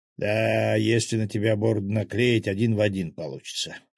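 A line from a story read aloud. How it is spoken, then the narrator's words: Chuckling axe. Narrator (Russian): хохотнул топор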